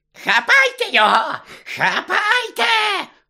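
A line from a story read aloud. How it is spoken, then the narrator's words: Shrieking. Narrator (Ukrainian): верещала Амбридж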